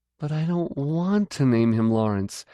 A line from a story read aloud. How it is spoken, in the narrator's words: she whined